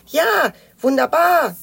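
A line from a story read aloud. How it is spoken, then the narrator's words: Calling out. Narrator (German): rief Knötterchen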